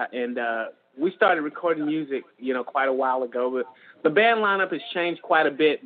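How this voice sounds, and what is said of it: Non-Californian American regional accent. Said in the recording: “That's that's not a California accent.”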